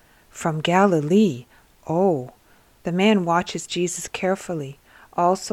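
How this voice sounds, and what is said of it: Usual voice. Nothing is said of it.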